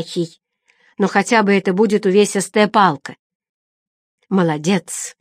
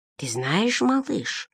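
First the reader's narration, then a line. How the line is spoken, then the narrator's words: Priest whispering in ear. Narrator (Russian): шепнул на ухо священник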